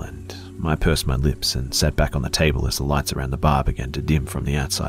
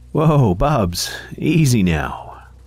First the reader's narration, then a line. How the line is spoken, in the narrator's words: said Karen with a chuckle